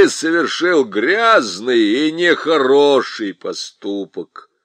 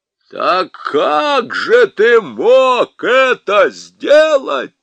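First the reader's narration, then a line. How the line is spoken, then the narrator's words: Thunderous question. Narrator (Russian): громовым голосом спросил Парнищев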